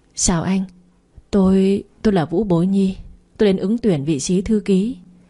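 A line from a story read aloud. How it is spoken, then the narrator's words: Nervous trembling voice. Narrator (Vietnamese): tôi run run mở miệng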